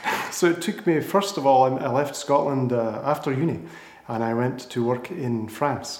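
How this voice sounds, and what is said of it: Scottish accent. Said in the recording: “a Scottish native ... your accent gives it away a little bit”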